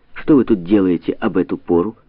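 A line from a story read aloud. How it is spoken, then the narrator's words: Firm question. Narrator (Russian): Она твердым голосом спросила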